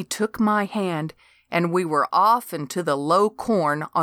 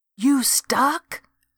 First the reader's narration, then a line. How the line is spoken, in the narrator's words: I whispered